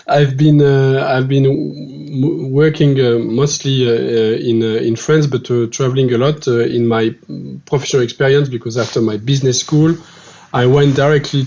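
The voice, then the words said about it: French-accented English. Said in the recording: “I'm a French guy, as you can see with my accent.”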